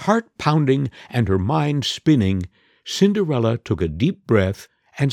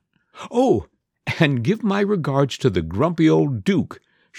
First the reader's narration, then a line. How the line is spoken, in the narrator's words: she giggled